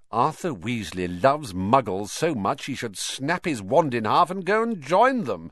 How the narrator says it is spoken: said Malfoy scornfully

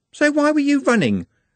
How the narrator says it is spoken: said Juliet sharply

